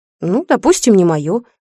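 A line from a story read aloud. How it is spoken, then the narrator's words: Angry. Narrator (Russian): сердито сказала Ольга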